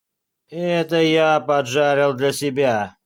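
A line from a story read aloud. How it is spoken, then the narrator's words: Hoarse. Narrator (Russian): сказал он сиплым голосом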